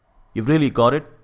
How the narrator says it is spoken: he cried

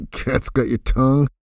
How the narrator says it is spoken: laughed, muttering

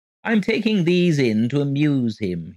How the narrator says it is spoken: he chirped gaily

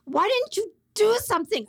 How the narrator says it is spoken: I screamed at Arnie

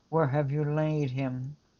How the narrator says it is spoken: he groaned in the spirit and was touched, and he said

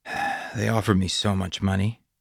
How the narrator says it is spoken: sighed

